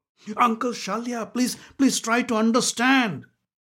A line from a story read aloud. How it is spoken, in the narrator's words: pleaded Duryodhan